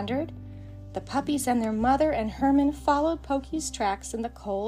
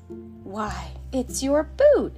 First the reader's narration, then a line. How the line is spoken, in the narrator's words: exclaimed Pokey's mother